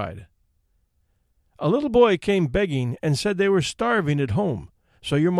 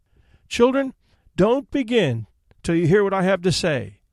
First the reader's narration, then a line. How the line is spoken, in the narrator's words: she cried